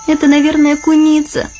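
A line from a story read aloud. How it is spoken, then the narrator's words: Frightened exclamation. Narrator (Russian): испуганно оглянулась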